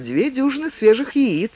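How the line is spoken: Cheerful, smiling. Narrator (Russian): Алина радостно улыбнулась им и сказала

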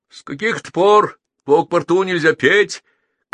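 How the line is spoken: Shouted. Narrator (Russian): крикнул гитарист

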